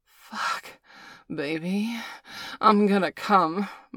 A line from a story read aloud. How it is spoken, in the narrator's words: moaned Valerie